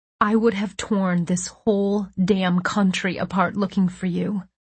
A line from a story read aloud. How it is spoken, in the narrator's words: I said softly